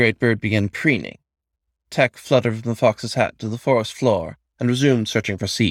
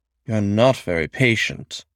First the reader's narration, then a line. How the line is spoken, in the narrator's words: the raven observed, dryly